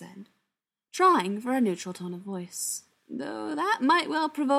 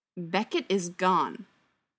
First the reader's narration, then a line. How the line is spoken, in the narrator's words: Schechter said, his voice hard and unwilling to yield